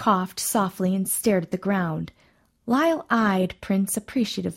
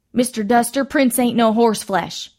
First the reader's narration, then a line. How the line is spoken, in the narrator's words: Ruby Mae replied angrily